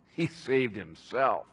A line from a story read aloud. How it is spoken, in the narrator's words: scoffed